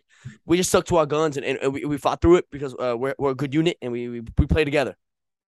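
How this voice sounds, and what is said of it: Good Jameis Winston impression. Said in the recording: “great Jameis impression ... that was a pretty good impression”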